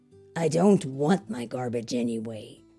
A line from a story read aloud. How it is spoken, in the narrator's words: Wolf grumbled